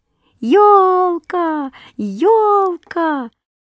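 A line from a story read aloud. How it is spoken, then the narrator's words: Excited shouting. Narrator (Russian): кричали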